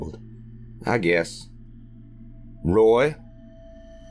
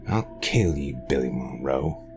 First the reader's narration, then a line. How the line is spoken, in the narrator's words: he growled